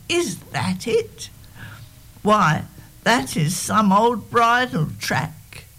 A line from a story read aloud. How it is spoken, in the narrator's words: I cried